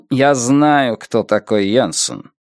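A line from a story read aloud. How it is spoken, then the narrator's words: Irritated interrupting sigh. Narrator (Russian): перебил Хаммерстен, раздраженно вздохнув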